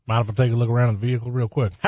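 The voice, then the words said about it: Polite Midwestern accent. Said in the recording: “your most politely mid- Midwestern corn fed accent”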